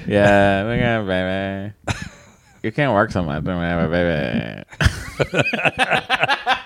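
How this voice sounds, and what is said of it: Imitates another person's voice. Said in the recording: “my impression of her ... that terrible, awful impression I just did”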